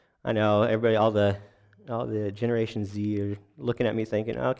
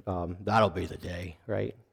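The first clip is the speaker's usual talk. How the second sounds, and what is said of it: Imitates another person's voice, poorly. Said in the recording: “my John Wayne impression. I'm not good at impressions.”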